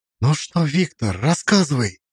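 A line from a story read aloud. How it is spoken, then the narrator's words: Quiet but demanding. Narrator (Russian): сказала она тихо, но требовательно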